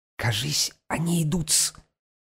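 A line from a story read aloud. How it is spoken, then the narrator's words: Sudden whisper. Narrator (Russian): шепнул вдруг Петр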